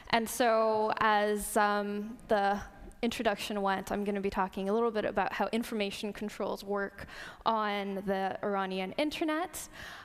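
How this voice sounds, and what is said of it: North American Canadian accent. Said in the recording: “sounds kind of American ... So that's why I sound this way. It's a Canadian accent.”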